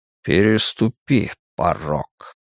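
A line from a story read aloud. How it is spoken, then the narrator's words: Calm voice. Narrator (Russian): спокойно произнес голос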